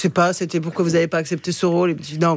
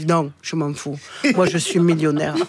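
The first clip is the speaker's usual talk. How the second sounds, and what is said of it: Imitates another person's accent. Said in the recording (French): “l'accent est... parfait.”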